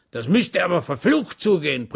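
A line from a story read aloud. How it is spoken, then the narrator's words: Roared. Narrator (German): brüllte der Vorsitzende der Kommission Schwäg zu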